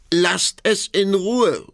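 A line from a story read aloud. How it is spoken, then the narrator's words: Mother calling out. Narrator (German): rief die Mutter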